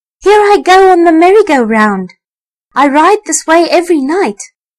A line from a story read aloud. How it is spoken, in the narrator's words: squeaked the rat to the elephant and the other Christmas toys